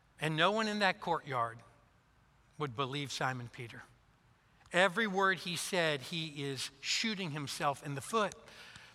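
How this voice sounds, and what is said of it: Kentucky accent. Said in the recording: “It's going to take some time for us to get used to your accent ... having spent my last 35 years in Kentucky”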